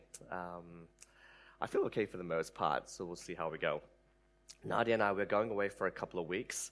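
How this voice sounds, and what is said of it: Voice sounds rough and unwell. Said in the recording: “You can also tell that my voice isn't the best either today.”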